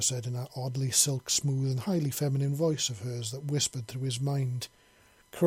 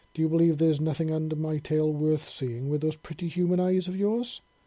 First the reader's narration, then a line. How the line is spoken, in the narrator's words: Zara asked in an oddly amused voice